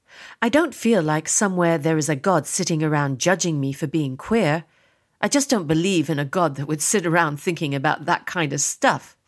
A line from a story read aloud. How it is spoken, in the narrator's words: chuckle